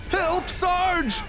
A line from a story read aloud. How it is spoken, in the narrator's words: They yelled